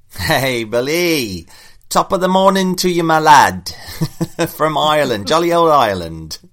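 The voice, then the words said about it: Bad put-on Irish accent. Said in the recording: “my Irish accent sucks.”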